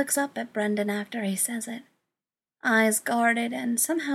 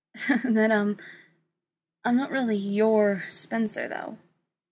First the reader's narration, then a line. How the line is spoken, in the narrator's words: Spencer says, letting out a nervous chuckle